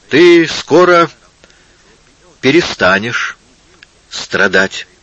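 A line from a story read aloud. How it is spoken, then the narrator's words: Plain. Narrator (Russian): сказал Иисус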